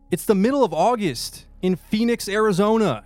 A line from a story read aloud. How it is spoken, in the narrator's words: screamed